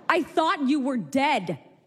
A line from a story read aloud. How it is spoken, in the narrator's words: he screamed